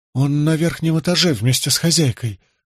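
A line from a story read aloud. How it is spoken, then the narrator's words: Trembling female voice. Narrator (Russian): дрожащим голосом сообщила женщина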